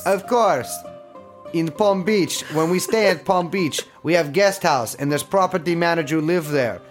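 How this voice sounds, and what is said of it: Imitation of Igor Zinoviev's accent. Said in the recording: “Igor Zinoviev? ... I'm doing the accent.”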